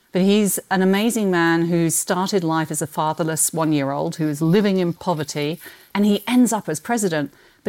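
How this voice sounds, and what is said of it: Non-local accent. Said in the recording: “As you can tell by my accent, I didn't grow up here”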